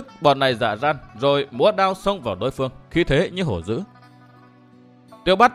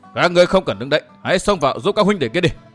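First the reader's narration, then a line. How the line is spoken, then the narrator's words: Deep-voiced shout. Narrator (Vietnamese): Đông Đại Nương trầm giọng quát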